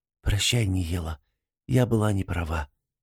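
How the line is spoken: Woman whispering. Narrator (Russian): прошептала женщина

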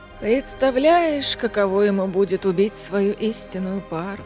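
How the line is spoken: Sighed. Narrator (Russian): вздохнула Бриллиана

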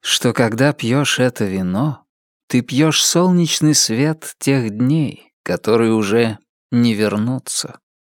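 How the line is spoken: Sad. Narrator (Russian): печально продолжал он

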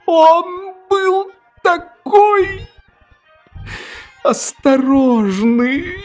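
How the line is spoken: Sobbing woman. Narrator (Russian): рыдала хозяйка

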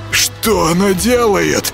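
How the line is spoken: Wheezing rasp. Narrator (Russian): просипел Юрка

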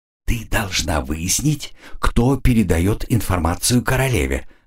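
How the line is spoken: Quiet but distinct. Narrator (Russian): говорил граф негромко, но вполне отчетливо

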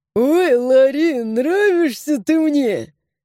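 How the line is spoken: Laughing loudly. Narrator (Russian): захохотал он

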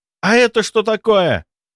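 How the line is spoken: Exclaiming. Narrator (Russian): воскликнул Сеня

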